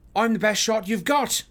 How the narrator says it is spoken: I shout

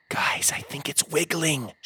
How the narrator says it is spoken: she whispered

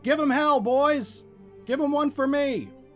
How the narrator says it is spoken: a patrolman was heard shouting

